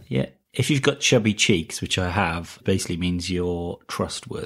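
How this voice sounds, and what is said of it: Welsh accent. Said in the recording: “your Welsh accent”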